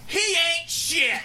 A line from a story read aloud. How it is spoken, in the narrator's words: she screamed out at the top of her lungs